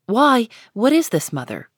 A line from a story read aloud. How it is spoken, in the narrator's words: cried